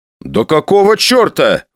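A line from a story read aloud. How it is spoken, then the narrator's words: Exclaiming. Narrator (Russian): воскликнул я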